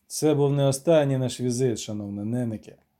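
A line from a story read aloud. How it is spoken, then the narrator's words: Plain. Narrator (Ukrainian): сказав він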